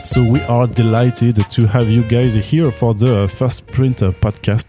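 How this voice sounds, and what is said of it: French accent in English. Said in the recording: “don't mind my uh, French accent.”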